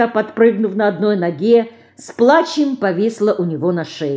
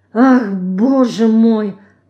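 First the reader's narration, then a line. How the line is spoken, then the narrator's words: Moaning. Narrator (Russian): простонала она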